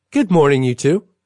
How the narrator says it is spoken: she chirps

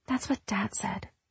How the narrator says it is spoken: she whispered

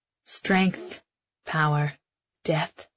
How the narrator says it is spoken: Maven murmurs, his teeth clicking

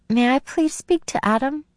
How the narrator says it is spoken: My voice came out in a squeak as I asked

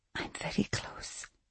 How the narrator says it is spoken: she whispered

